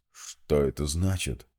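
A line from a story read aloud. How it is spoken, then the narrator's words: Colonel, hoarse rasp. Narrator (Russian): прохрипел полковник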